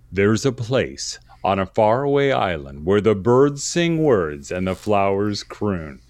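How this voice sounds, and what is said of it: Dramatic movie-trailer announcer voice. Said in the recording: “I'm going to put on my announcer voice.”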